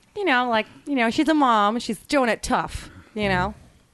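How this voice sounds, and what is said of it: Put-on Midwestern Great Lakes accent. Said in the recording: “the Great Lakes accents ... Like the Midwestern kind of. ... Like the Midwestern mom. Like that.”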